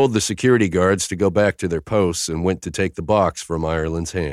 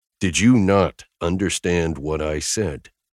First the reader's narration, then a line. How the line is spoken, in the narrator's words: I growled at him